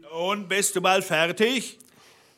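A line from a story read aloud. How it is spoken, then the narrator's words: Calling from below. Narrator (German): rief der Blaubart unten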